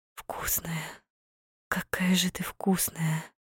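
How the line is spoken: Whispering between kisses. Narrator (Russian): Шептал он мне между поцелуями

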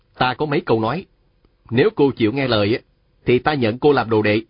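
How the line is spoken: Stern voice. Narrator (Vietnamese): nghiêm giọng nói với Hà Thiết Thủ

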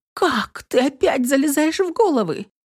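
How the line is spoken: Frightened exclamation, muffled by hand. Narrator (Russian): испуганно воскликнула девушка, прикрыв ладошкой рот

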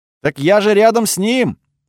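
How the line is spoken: Yelled reply. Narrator (Russian): заорала она в ответ

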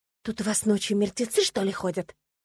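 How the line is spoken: Exasperated whispered question. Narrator (Russian): не выдержала и спросила шепотом

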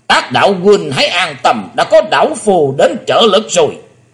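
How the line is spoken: Booming old man roar. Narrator (Vietnamese): lão nhân đã gầm lên tợ như chuông đồng

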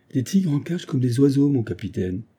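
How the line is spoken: Exclaimed. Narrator (French): s'écria Fox

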